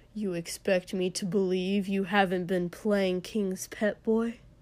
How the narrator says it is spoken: Inji said with a cruel laugh

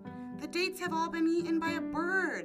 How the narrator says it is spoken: The servant yelled

